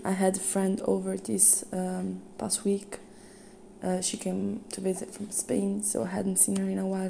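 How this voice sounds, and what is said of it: Hoarse, nearly lost voice. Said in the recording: “As you can hear, I lost my voice kind of again”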